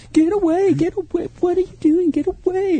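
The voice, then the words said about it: Imitates a female gorilla's voice. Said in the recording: “your impersonation of a female gorilla is your best yet”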